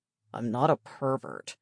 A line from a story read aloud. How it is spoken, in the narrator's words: George rumbled in a deep voice